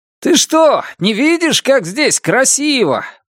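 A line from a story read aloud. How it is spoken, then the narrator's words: Shouting from ahead. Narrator (Russian): прокричал он спереди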